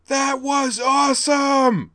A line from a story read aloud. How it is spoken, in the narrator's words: yelled at the top of her voice